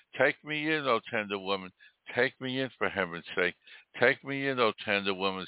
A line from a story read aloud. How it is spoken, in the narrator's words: sighed the snake